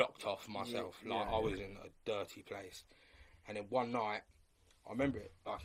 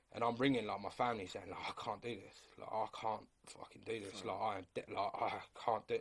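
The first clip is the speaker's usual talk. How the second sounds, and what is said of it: Emotional, choked-up voice. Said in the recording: “I'm getting emotional now.”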